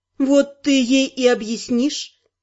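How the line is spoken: Calm. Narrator (Russian): спокойно произнесла названная Ардой

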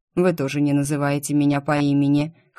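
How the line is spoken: Wry snort. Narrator (Russian): хмыкнул он

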